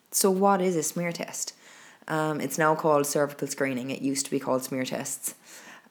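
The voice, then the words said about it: Croaky, hoarse voice. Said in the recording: “I am going to apologize now for my croakiness ... I'm still a bit croaky, so you'll have to put up my hoarse voice”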